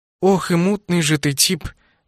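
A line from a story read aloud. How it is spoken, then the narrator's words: Sighing. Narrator (Russian): вздохнула Нова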